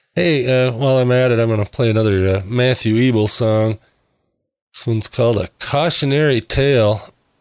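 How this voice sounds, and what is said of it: Slightly raspy voice. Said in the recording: “my voice is a little raspy tonight ... I'm having a little allergy attack tonight”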